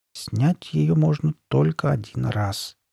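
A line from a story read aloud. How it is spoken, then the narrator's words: Quiet. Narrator (Russian): тихо проговорил он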